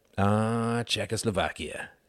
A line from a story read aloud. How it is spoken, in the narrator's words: sighed Quentin